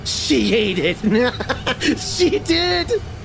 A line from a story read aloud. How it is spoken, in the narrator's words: sobbed and spat fur and blood